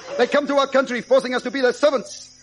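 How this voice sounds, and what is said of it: Put-on foreign accent. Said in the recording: “Accent, voila!”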